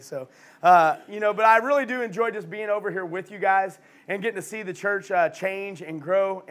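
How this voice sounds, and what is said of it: Hoarse, fading voice. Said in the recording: “They know I'm losing my voice already.”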